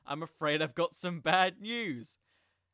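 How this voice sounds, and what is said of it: Put-on British accent. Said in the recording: “in a British accent”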